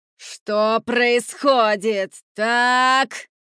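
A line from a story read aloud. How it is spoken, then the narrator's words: Louder furious growl. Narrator (Russian): Еще громче рыкнула она, будто разъяренный лев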